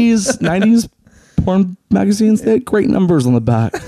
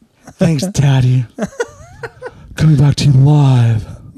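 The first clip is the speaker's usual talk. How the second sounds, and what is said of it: Sultry exaggerated radio announcer voice. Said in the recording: “radio voice, that porn star radio voice”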